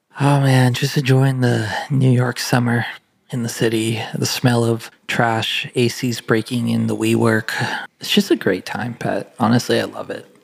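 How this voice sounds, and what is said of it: Soft whispery ASMR-style voice. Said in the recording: “you've gone for your classic ASMR voice again.”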